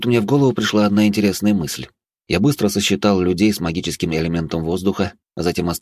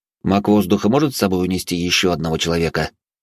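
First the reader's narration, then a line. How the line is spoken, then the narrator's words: Cold interruption. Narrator (Russian): холодным тоном перебил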